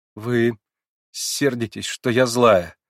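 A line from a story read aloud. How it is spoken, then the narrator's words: Broken-off speech. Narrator (Russian): сказала было, но не докончила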